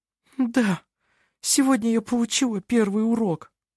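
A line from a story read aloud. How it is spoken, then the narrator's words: Sobbing. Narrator (Russian): всхлипнула она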